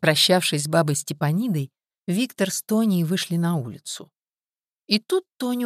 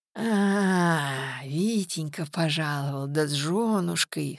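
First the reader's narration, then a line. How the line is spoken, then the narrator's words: Hoarse drunkard's voice. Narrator (Russian): хрипло проговорил алкаш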